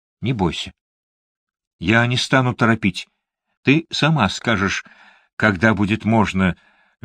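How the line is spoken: Soft, tender. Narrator (Russian): мягко произнес он, тронутый ее беззащитностью

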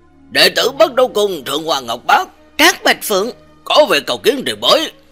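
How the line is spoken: Loud chanting call. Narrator (Vietnamese): lớn tiếng hát lên

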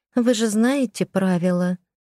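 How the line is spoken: Timid, young woman. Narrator (Russian): уточнила робко девушка

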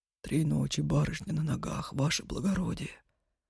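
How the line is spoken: Whispered reminder. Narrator (Russian): шепотом напомнил Федор

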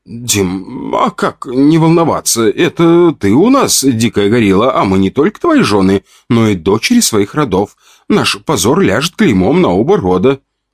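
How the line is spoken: Plain. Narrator (Russian): ответила Вика

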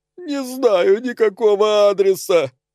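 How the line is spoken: Sobbing. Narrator (Russian): прорыдала жертва

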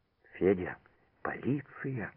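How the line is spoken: Frightened. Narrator (Russian): испуганно выговорила Мотя

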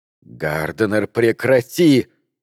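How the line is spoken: Hiss. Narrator (Russian): прошипела Маккардл

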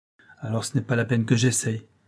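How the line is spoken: Sick man, pensive. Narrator (French): dit le malade d'un ton pensif

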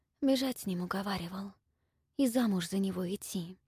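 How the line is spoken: Whispered reply. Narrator (Russian): ответила Ольга тоже шепотом

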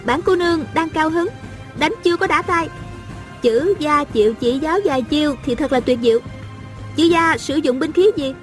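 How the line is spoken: Smiling, playful. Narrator (Vietnamese): A Cửu mỉm cười nói

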